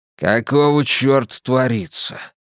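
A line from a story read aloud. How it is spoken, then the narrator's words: Growled. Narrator (Russian): прорычал бульдог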